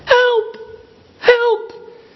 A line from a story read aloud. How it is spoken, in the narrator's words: he cries out